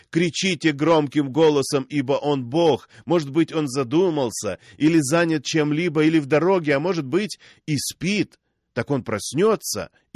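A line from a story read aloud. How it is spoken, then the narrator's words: Mocking laughter. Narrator (Russian): Илья стал смеяться над ними и говорил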